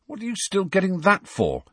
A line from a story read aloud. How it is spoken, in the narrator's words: said Harry irritably